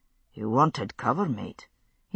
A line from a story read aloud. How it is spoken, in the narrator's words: he murmured to himself